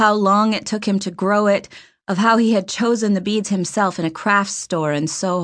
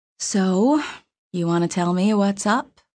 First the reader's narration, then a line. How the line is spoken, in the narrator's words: She asked nicely, softly